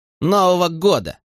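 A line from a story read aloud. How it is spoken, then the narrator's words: Snorting. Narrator (Russian): Скрэдли фыркнул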